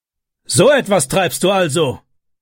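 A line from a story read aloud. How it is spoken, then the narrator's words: Shout. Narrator (German): schrie er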